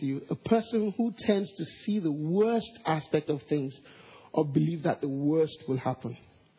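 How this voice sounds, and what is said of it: Nigerian and Singaporean accent. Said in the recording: “forgive my accent. It's a very Nigerian and Singaporean accent.”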